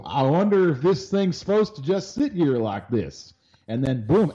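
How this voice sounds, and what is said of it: Southern dumb-guy accent. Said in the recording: “using a southern accent there? ... a dumb you, guy accent ... Why does the you, dumb guy have a southern accent?”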